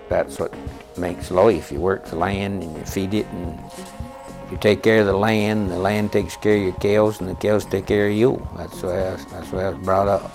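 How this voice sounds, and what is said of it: Old New England accent. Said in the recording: “New England accent? ... a vanishing sound”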